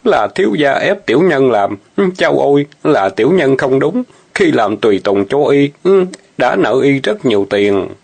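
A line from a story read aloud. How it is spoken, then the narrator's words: Terrified stammering. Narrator (Vietnamese): Ô Kiệt hồn phi phát tán lắp bắp nói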